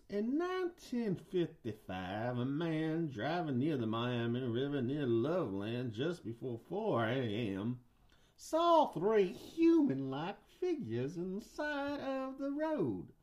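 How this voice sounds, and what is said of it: Put-on Southern US accent. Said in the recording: “I'm going to do a southern guy.”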